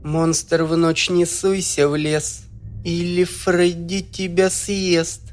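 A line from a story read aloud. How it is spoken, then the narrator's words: Flat dead recitation. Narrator (Russian): мертвым голосом продекламировала Сандей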